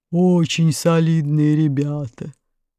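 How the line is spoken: Deep booming voice. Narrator (Russian): басил телевизор

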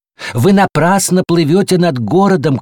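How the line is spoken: Shouted warning. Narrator (Russian): крикнули ему вслед и предупредили

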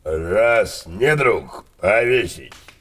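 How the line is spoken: Hoarse. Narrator (Russian): хрипло сказал отец Супик

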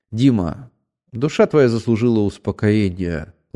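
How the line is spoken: Gentle, tender. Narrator (Russian): ласково сказал Ахметьев

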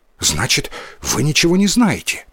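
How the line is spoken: Hurried question, boy. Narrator (Russian): торопливо спросил мальчик

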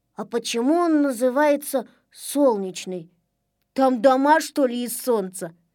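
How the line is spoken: Plain. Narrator (Russian): спросил Незнайка

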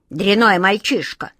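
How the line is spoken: Grumbling male voice. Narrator (Russian): проворчал он

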